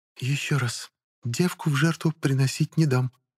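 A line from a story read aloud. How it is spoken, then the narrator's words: Barely audible whisper. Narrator (Russian): еле слышно прошептала оперативница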